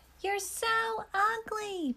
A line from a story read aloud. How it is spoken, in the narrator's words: people shout